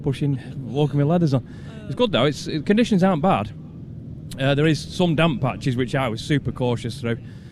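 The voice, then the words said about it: Out of breath, panting speech. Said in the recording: “I'm out of breath ... I'm out of breath”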